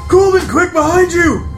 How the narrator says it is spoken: Ren immediately sees the creature behind Colvin and yells at him and says

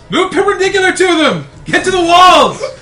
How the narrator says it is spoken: Hugh yells

